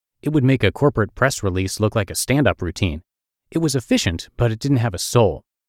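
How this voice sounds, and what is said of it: Russian accent. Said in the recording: “I have a Russian accent.”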